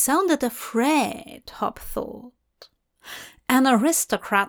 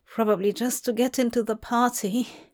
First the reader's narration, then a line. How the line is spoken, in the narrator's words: said the young man timidly